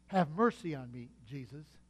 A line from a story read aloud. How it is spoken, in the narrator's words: someone young, knowing the insecurity of youth, saying, if not verbally, at least quietly within his heart